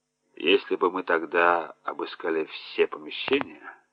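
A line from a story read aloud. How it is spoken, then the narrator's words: Quiet. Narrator (Russian): тихо сказал он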